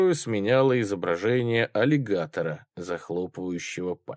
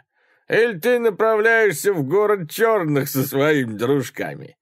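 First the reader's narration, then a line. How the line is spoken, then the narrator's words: Laughing. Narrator (Russian): Все еще смеясь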